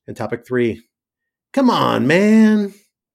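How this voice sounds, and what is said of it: Joe Biden impression, Delaware-Scranton accent. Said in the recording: “Trying to make that sound as Biden-y as I can. It's hard. It's hard to get that Delaware accent quite right. Scranton accent, Scranton by way of Delaware accent.”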